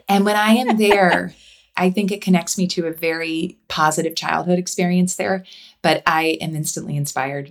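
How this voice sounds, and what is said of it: Slight upstate New York accent. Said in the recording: “a little bit of an upstate New York accent”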